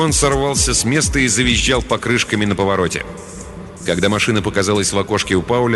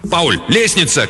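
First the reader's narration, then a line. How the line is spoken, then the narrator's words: Sudden instinctive shout. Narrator (Russian): крикнул Рэнс раньше, чем сам осознал, что что-то заметил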